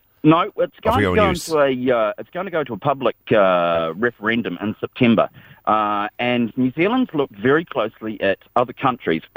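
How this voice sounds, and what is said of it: New Zealand accent. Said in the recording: “as you can tell from my accent, I'm not from around here. I'm from New Zealand”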